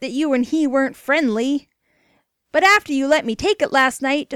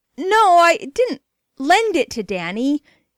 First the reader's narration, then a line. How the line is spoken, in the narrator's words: exclaimed Jimmy